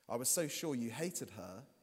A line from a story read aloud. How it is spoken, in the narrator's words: he said